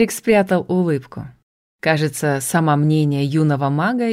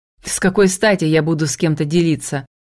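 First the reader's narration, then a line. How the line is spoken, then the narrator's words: Snorting. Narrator (Russian): фыркнул Алексис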